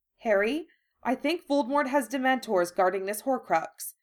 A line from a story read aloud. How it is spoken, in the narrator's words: she said urgently